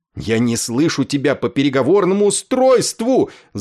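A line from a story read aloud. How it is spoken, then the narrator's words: Desperate yell. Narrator (Russian): завопил, теряя всякую надежду, Ясариан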